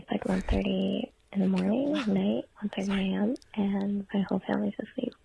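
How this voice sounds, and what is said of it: Whispering. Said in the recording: “I'm sorry I'm like whispering.”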